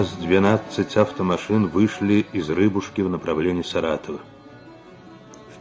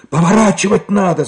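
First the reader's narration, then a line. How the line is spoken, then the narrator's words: Shouted over the wind. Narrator (Russian): закричал шофер, стараясь пересилить шум ветра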